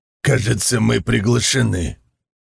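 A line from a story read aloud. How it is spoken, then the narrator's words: Scoffing grunt. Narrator (Russian): Хмыкнул Барс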